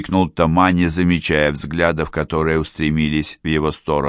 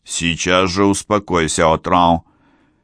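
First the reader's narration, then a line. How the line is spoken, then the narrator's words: Stern command. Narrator (Russian): Охранник строгим голосом приказал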